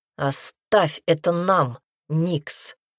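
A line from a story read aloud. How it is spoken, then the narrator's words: Growled. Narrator (Russian): прорычал он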